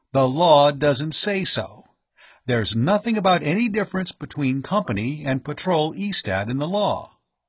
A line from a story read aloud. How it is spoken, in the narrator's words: Dane pointed out triumphantly